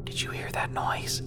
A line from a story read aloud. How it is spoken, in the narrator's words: She asked in a whisper